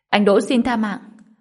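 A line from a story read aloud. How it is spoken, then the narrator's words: Loud alarmed shout. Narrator (Vietnamese): Tử Thụy thấy không ổn, hét lớn nói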